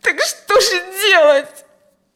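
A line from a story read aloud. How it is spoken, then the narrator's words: Desperate sob. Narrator (Russian): Отчаянно всхлипнула Алевтина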